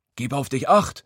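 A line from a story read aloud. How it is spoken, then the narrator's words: Grandpa bellowing. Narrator (German): brüllt Opa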